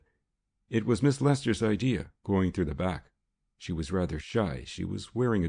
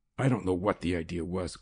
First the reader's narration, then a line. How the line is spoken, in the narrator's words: growled Newton